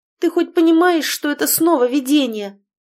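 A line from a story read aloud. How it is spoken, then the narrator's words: Frightened shout. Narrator (Russian): испуганно кричала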